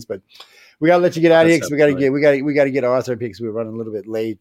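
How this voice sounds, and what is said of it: Cajun accent. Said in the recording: “I got the worst. I got a coon-ass Cajun accent.”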